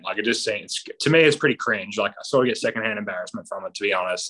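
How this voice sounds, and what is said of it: Australian accent. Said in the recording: “love my Aussie accent”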